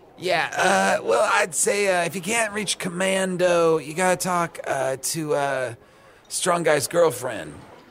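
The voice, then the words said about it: Strained childlike needing-bathroom voice. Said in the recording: “you sound like Constipato. Constipedro. ... You're talking like a little child that has to go to the bathroom.”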